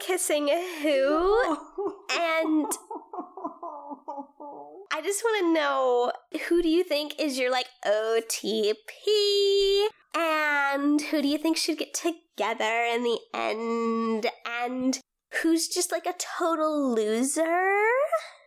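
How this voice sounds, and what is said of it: Valley Girl voice. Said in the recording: “This isn't the shipping voice. This is the Valley Girl voice.”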